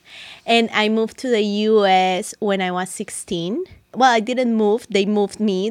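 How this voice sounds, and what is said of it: Colombian Spanish accent. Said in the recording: “that cool accent ... my cool accent comes from Medellin, Colombia”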